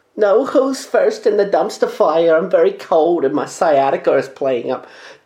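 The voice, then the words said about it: Poor impression of cartoon Jewish kid. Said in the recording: “that impression just became the little Jewish kid on South Park... The impression was terrible.”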